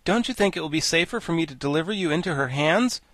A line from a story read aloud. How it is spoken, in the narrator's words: asked Ginger nervously